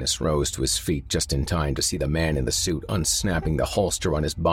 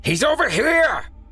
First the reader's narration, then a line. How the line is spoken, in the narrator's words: the man in the suit shouted